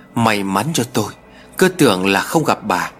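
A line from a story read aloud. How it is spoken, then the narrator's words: Chirpy, chattering. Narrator (Vietnamese): Bà ríu rít nói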